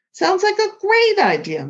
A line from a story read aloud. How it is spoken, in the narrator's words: Mom exclaimed